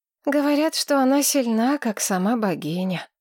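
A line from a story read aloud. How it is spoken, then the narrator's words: Sighing. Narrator (Russian): вздохнула Алета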